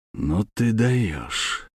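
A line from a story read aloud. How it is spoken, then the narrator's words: Quiet. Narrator (Russian): сказал он тихо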